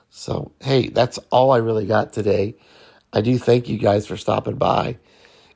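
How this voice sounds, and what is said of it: Voice rough from a cold. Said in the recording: “my voice sounds so bad, but I'm getting a man cold”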